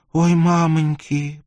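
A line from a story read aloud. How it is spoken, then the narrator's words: Moaning, just recovered. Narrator (Russian): простонала очухавшаяся девчина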